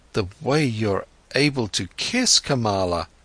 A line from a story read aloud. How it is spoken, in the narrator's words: stammered Siddhartha